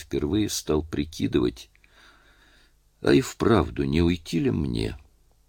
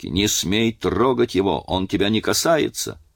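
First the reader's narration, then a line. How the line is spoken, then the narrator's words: Distant shout. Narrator (Russian): Кондрат закричал с установки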